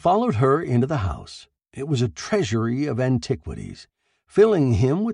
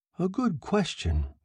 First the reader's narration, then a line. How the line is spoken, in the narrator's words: he muttered thoughtfully